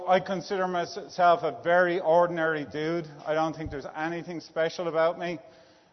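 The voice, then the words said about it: Irish accent. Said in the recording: “I was born in Dublin, Ireland. As you may know from the accent, it's not a Texas accent.”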